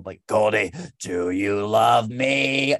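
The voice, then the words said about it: Imitates another person's voice. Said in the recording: “my Harvey Fierstein impression at 8 years old ... That's not bad, right? Like, that's not terrible.”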